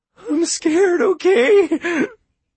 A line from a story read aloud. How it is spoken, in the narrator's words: Andrew moaned, and now the tears were flowing freely